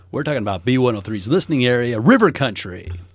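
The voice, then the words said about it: Announcer-style radio voice. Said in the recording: “You can totally tell he's an announcer. ... Such an announcer. ... radio voice”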